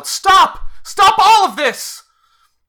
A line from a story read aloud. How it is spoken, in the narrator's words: Irina shouts out